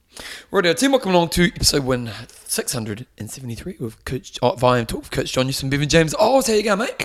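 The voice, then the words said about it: Hoarse, strained voice. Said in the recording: “I'm losing my voice... Screaming too much.”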